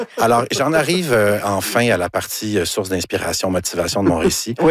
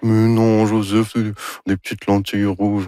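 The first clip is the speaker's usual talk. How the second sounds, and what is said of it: Imitates another person's voice. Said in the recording (French): “Ça, c'est mon imitation de Anne Dorval... C'est très réussi.”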